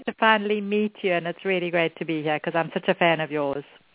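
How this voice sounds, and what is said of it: Speaks with a noticeable accent. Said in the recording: “I just love your accent. That's going to be so fun to listen to”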